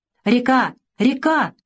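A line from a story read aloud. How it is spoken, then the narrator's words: Joyful shout. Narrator (Russian): радостно прокричал Савелий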